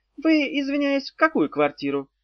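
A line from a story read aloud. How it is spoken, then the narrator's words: Timid question. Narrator (Russian): робко спросила Зозо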